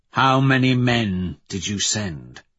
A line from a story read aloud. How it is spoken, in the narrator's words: ask coldly